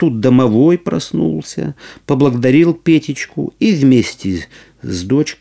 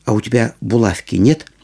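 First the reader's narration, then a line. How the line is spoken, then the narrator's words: Plain. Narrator (Russian): спросил Петечка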